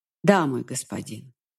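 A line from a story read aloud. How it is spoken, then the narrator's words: Sighing. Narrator (Russian): невольно вздохнула я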